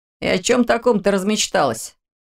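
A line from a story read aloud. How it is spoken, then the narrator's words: Chuckling. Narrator (Russian): хохотнул Орс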